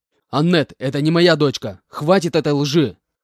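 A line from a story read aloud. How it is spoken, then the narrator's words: Restrained angry snort. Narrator (Russian): Едва сдерживая себя, чтобы не закричать, фыркнул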